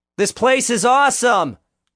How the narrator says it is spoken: Vince cried out

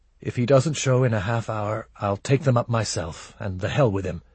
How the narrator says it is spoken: He muttered

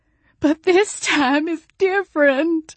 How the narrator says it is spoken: Jolene wailed

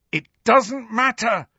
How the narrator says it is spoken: Harry shouted

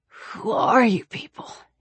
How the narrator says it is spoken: he whispered

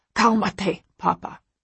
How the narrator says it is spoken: Jose snaps

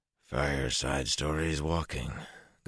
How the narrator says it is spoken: Galen muttered

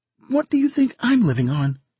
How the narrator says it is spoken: She asked sharply

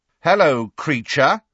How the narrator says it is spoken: said Fred, very loudly

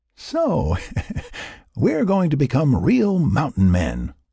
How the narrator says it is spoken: Will chuckled

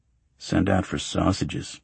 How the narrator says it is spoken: I muttered

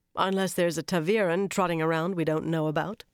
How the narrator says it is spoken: she replied dryly

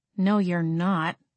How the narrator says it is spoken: Jenny muttered

